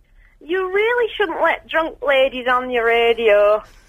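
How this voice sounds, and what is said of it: Imitates another person's voice. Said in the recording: “It's a Barnsworth impersonator ... It's really brilliant, isn't it? You're right, Barnsworth impersonator.”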